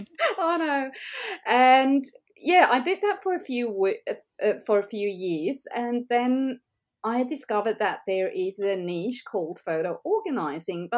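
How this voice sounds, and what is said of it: Swiss-accented English. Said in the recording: “as you can hear from my accent, I'm not Australian by birth. So we moved over from Switzerland”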